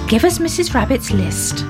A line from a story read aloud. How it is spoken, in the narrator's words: said Grandpa Ted